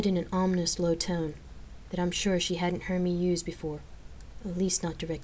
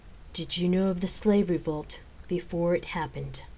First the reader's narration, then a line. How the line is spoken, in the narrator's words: I asked, my voice tight and controlled